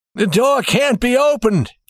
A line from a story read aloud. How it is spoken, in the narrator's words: he cried